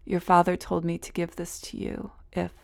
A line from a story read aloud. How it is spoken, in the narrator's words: her voice broke